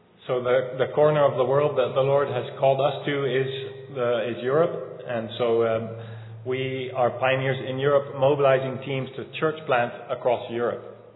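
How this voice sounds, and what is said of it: Non-local, non-Southern American accent. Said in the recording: “You probably can tell by my accent that I'm not from West Virginia”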